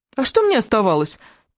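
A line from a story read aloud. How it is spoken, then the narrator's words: Defensive squeak. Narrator (Russian): пискнул в свою защиту Джастин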